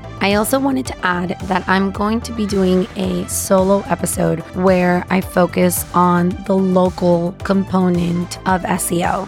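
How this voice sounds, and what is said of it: Voice sounding different from usual. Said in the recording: “my voice sounds different, it's because it is... we've been in really loud environments where we have to scream to be heard”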